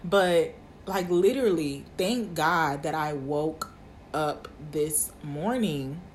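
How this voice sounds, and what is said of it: Emotional, teary voice. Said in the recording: “getting emotional. ... My eyes are watering”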